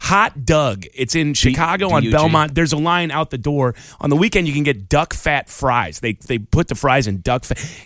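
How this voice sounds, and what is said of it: Chicago accent coming through. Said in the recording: “Can you hear my accent coming through? ... it just brings the Chicago out of you”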